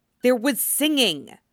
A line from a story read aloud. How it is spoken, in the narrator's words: Dame Geller hisses to her neighbor